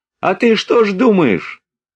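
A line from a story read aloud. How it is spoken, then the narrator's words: Squeaky trembling voice. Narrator (Russian): Вдруг пескливым дрожащим голосом заговорил востроносенький солдат, которого называли Ворона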